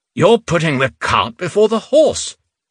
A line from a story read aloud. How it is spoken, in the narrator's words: Reuben said indignantly